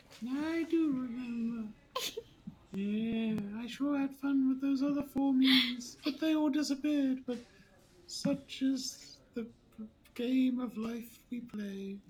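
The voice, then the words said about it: Character voice. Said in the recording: “You're doing the arrows voice. Yeah. That's cute.”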